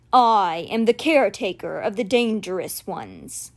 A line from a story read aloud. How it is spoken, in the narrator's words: he said in his rumbling voice